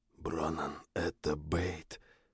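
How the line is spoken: Whisper, lips barely moving. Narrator (Russian): прошептал я, почти не шевеля губами

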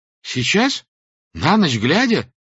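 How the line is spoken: Frightened exclamation. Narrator (Russian): воскликнул он испуганно

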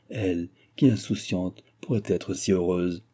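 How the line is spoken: Sighing. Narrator (French): soupira-t-elle

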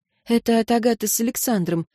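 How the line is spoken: Quiet. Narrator (Russian): произнесла София тихо

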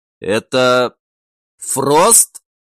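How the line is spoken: Fearful, hoarse. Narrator (Russian): позабытый страх и хриплый голос снова вернулись

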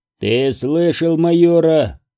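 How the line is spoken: Growling. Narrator (Russian): прорычал сержант

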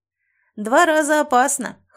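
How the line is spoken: Snorting. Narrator (Russian): хмыкнул Кыс

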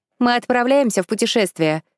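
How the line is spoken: Shouted. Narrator (Russian): крикнула Эко

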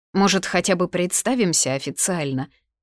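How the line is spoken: Mocking question, young woman. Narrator (Russian): насмешливо поинтересовалась девица

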